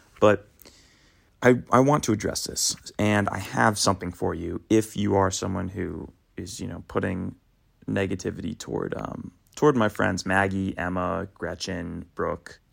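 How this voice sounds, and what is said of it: Slightly raspy voice. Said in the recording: “my voice is a little raspy, it's just because I just woke up”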